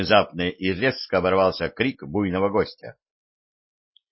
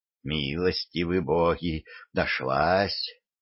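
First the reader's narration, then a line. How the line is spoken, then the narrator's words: Relieved sigh, master. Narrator (Russian): с облегчением вздохнул хозяин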